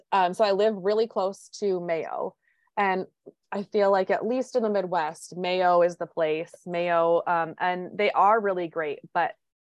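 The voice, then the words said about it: Minnesota accent. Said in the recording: “I live in Minnesota, if you couldn't tell by my accent.”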